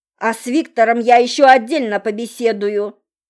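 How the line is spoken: Growling. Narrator (Russian): рычал Сухоруков

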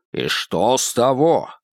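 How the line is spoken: Angry. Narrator (Russian): теперь и Хэй говорил сердито

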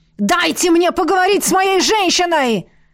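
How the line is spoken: Yelled. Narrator (Russian): заорал Лиерт

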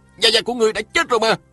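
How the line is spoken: Startled loud cry. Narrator (Vietnamese): Lê Cường nhảy bật dậy la lên

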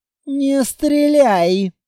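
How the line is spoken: Hissed. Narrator (Russian): прошипел Тар

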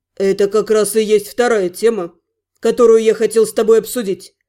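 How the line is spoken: Dry, curt. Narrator (Russian): сухо произнес мой напарник

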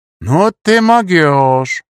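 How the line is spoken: Surprised drawl. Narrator (Russian): удивленно протянул я

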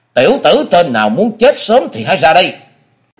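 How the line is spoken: Old man's loud shout. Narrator (Vietnamese): lão già thứ hai quát to

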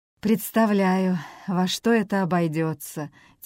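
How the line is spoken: Heavy sigh. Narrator (Russian): тяжело вздохнул Рассел

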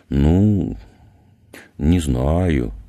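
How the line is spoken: Skeptical drawl. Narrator (Russian): скептически протянул Климов

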